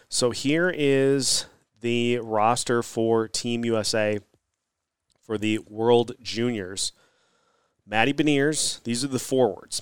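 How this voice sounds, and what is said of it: Sick, under-the-weather voice. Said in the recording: “apologies if you can hear it in my voice. Still a little bit under the weather”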